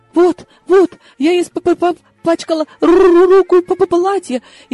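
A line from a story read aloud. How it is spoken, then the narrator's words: Frightened stammering. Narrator (Russian): испуганно заикалась выдра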